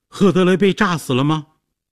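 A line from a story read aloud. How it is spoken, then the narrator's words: Shouted urgent question. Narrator (Chinese): 杰西卡随后冲进来，大叫着问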